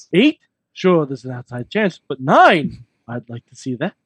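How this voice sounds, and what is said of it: Mr. Burns cartoon character impression. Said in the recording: “That is a fascinating impression. ... That's not bad, though. ... I could do a better Mr. Burns”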